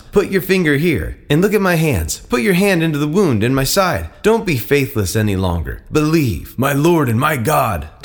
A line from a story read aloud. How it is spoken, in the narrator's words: Thomas exclaimed